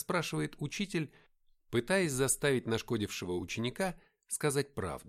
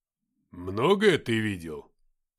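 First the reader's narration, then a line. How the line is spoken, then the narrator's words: Stern question. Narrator (Russian): строго спросил Игнат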